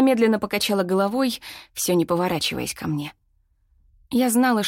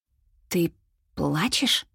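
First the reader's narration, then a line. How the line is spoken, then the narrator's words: Hesitant question. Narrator (Russian): неуверенно спросила я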